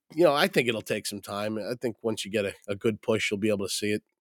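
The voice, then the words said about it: Sick, messed-up voice. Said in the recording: “I am still sick. My voice, this is 2 weeks now. My voice is still messed up ... I cough now and then”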